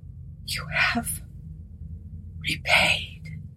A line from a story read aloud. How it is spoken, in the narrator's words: whispered gently